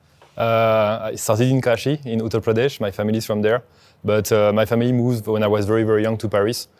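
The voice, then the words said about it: French accent in English. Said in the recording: “I have a French accent”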